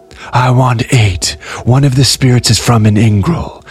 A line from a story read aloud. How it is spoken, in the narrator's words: snapped the messenger in a raw yet choral voice